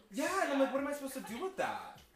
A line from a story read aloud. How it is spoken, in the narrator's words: The whining